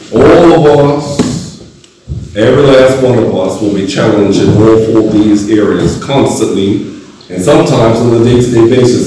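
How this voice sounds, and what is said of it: Voice sounds unwell, ill. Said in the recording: “You can hear it in my voice. ... I was not well and still trying to get better.”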